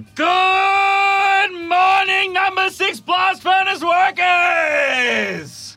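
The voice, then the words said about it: Shouted radio DJ impression. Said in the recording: “Robin Williams ... Good Morning Vietnam ... my best impression”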